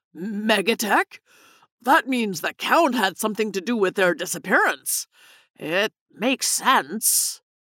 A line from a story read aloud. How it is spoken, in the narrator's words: Gaines gasped